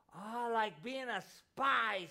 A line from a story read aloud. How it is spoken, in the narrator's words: squealed Lisa